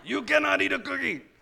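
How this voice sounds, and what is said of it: Cookie Monster character voice. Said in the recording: “I heard the Cookie Monster voice in my head just now”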